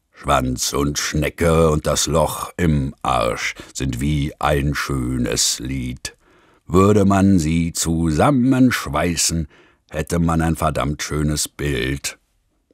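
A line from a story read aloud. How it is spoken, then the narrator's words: Rough singing. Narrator (German): fing ohne Vorwarnung an, mit rauer Stimme zu singen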